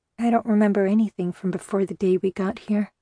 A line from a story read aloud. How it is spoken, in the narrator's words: I murmured